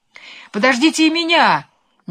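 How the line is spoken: Sudden shout. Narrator (Russian): неожиданно закричал Лимонишка

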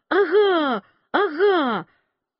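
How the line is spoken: Shouting. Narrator (Russian): Клавдия кричала

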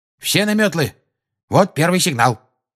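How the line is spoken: Curt, clipped. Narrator (Russian): отрывисто произнес Люпин

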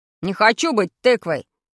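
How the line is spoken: Angry boy. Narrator (Russian): сказал сердито Павлик

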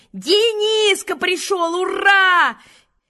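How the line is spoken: Shouted by everyone. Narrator (Russian): все закричали

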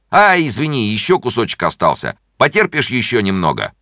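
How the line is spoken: Doctor shouting. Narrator (Russian): доктор закричал

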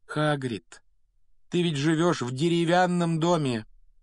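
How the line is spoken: Tragic voice. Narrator (Russian): трагическим голосом произнесла она

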